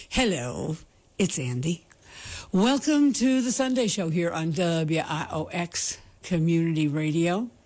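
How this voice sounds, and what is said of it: Weak, not fully recovered voice. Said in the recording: “That's the way I actually check to see whether my voice is back or not. Bar. No, not quite yet.”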